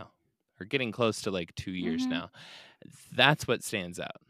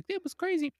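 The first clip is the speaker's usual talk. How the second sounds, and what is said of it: Imitated squirrel character voice. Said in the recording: “You're a squirrel up in a tree ... That was a good impression.”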